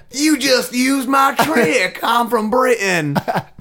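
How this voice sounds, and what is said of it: Put-on Southern American accent. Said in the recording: “the British officer has a southern accent.”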